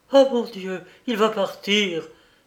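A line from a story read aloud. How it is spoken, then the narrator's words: Exclaimed. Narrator (French): s'écria-t-elle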